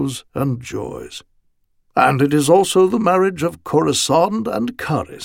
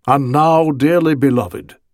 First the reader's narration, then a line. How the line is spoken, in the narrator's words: he said